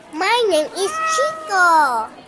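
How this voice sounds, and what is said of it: Gentle character voice for a cat. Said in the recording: “in a gentle voice”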